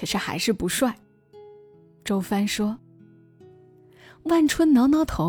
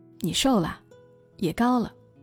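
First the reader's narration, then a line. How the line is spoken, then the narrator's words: Faint gentle smile. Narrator (Chinese): 周帆 还是像从前一样淡淡的笑着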